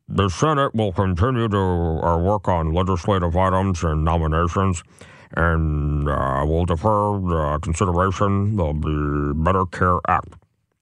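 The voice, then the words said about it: Mitch McConnell impression. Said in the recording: “I'll try to do it in my best Mitch McConnell voice ... It's pretty good, Mitch McConnell. That might be one of my better impersonations.”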